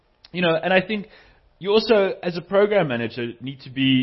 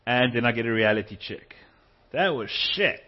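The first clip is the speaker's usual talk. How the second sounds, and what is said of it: Attempted Australian accent. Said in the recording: “That's my best attempt at an Australian accent”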